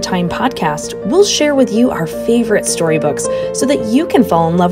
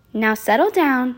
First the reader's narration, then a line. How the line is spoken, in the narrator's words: Miss Nelson said in a sweet voice